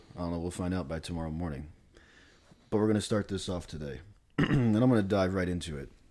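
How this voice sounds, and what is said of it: Voice altered by a cold. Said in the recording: “My voice is coming off a little bit different than it typically is ... Or it's because I have a cold.”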